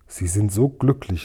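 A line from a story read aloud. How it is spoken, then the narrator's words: Plain. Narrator (German): sagte Yum-Yum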